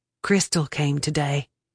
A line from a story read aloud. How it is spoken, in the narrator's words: Lessie whispered